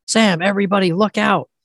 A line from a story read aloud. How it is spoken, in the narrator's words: shouts